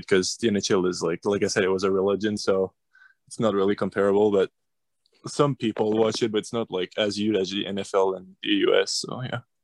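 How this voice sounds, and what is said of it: Canadian accent from Quebec. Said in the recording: “we could tell by your accent as well, you're Canadian, you're in Quebec City, Quebec”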